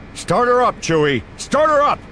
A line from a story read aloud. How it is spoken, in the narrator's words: Han shouts